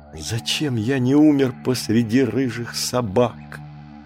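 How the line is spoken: Young man groaning. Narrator (Russian): простонал юноша

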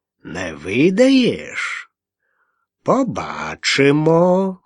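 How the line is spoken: Calm, nasal, meaningful. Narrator (Russian): многозначительным спокойным тоном прогнусавил Грыць

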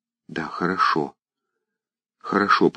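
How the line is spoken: Repeated whisper. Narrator (Russian): повторила она тоже шепотом

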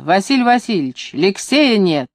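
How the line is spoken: Shouting nanny. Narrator (Russian): Нянька Евгения закричала

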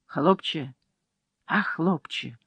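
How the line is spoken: Whispered call. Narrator (Russian): шепотом позвала она

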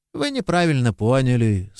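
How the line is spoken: Calm. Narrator (Russian): спокойно сказал священник

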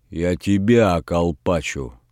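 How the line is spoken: Fierce growl. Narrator (Russian): свирепо зарычал Передонов

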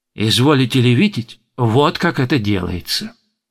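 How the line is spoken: Ingratiating. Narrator (Russian): продолжала она вкрадчиво

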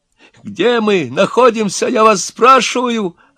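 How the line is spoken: Hysterical shout. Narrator (Russian): опять закричал тот истеричный

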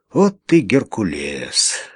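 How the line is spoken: Sighing. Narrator (Russian): вздохнул он

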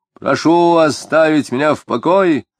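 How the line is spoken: Shouting. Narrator (Russian): тоже крикнул Тагильский

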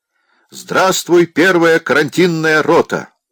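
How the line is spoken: Curt shout. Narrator (Russian): Должны отрывисто крикнуть

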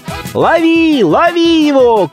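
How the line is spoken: Several lads shouting. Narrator (Russian): кричало несколько хлопцев в тесном конце улицы

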